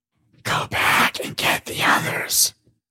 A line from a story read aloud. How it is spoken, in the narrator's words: whispered the aliens and Paige